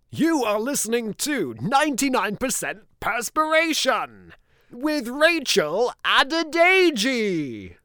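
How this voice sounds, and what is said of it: Dramatic TV voiceover announcer voice. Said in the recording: “a voiceover guy ... voice of the X Factor ... doing a bit of voice acting”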